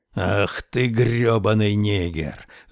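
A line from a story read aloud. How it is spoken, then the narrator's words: Growling. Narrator (Russian): рычал Мортон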